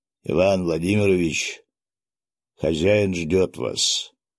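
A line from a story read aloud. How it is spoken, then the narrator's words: Rough voice. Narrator (Russian): грубым голосом произнес он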